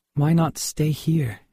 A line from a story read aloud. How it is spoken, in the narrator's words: she said